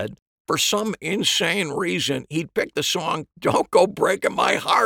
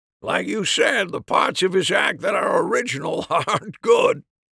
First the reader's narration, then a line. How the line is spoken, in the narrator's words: Harry said with a laugh